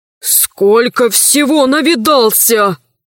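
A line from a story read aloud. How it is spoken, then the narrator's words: Trembling voice. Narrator (Russian): сказал дрогнувшим голосом Иванушка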